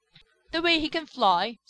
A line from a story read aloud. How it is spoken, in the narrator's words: sputtered Skimmer